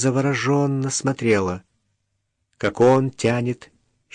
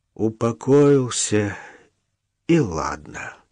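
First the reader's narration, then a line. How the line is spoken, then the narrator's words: Exhaled. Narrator (Russian): выдохнул Денисов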